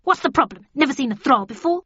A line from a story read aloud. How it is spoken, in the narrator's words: the creature said in a harsh tone